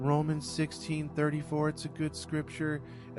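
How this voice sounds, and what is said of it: Usual voice. Nothing is said of it.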